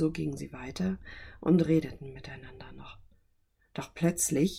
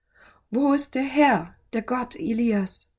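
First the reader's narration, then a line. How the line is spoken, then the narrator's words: Loud hopeful call. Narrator (German): rief er laut und hoffte auf ein Zeichen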